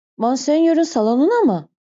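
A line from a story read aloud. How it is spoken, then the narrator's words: Stunned manager exclaiming. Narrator (Turkish): diye haykırdı afallayan müdür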